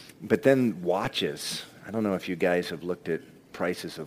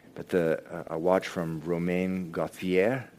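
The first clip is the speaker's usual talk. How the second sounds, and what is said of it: Not very good French accent. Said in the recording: “sorry for my French accent. It's not really good.”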